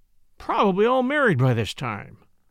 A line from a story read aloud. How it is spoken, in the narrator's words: Jack groaned